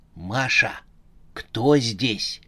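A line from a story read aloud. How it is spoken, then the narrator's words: Young man hissing. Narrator (Russian): прошипел молодой человек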